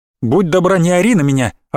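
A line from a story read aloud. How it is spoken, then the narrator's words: Snapping. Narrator (Russian): огрызнулась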